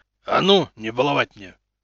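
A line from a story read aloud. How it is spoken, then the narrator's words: Barking. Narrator (Russian): рявкнул тот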